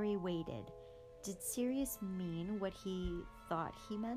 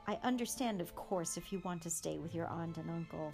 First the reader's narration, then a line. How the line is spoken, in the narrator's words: said Sirius